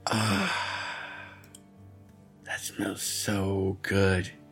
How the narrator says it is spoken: Petey said with a happy sigh

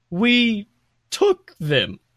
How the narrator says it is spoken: he says slowly

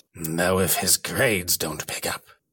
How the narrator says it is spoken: said Malfoy, more coldly still

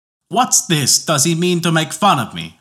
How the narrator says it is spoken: shouted the king in wrath

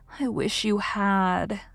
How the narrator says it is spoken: sighed Anne

